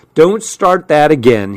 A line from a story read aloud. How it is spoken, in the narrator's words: he snapped